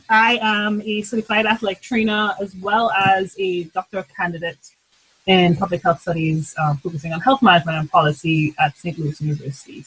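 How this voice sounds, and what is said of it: Trinidadian accent. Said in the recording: “I'm originally from Trinidad and Tobago, hence the glorious accent that will come out of my mouth too often”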